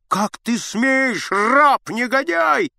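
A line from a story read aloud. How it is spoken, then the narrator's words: Shout. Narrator (Russian): закричал Аггей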